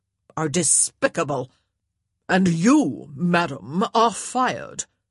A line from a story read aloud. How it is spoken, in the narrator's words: she spat out